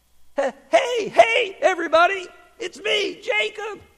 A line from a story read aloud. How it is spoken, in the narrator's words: called out